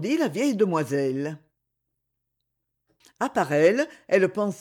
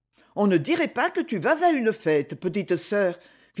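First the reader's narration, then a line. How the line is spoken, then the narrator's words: Reproachful remark. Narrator (French): fit observer Freddy d'un ton de reproche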